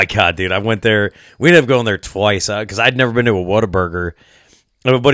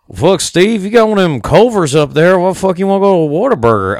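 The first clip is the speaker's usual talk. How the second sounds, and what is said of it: Attempted Southern US accent. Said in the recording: “I can never do a Southern accent. Well, I keep trying. One of these days I'm going to get it.”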